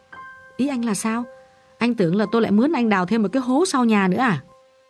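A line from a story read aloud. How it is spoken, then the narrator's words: Relieved, amused. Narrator (Vietnamese): Gã thở phào và bất giác mỉm cười vì nhận ra sự ngớ ngẩn và nhất là sự lạc quan vô lý của thằng em mình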